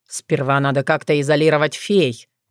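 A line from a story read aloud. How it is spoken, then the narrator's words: Grumbling. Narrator (Russian): проворчал Рагнастиг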